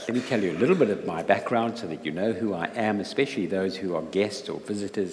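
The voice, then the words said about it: South African accent. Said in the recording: “you'll uh, get used to my accent ... I'm not a Geordie, I'm from South Africa”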